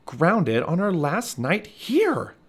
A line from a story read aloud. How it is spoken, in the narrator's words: Michael whined